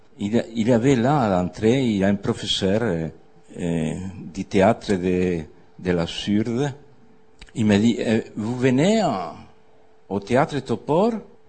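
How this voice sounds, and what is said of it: British accent speaking French. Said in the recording (French): “j'espère que vous comprenez mon accent britannique”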